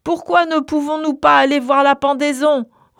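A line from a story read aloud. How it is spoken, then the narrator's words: Boy roaring full-voiced. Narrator (French): rugit le garçon de sa voix pleine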